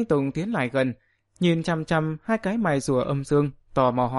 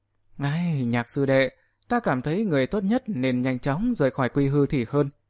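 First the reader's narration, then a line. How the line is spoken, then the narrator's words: Tongue-clicking, sighing. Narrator (Vietnamese): Tứ tượng thần tử trong miệng phát ra tiếng tặc lưỡi, lắc đầu thở dài nói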